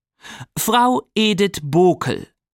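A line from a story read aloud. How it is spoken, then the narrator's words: Reading aloud. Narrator (German): las die laut vor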